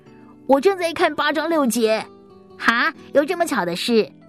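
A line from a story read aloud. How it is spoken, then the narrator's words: Loud reply. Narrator (Chinese): 他大声的回应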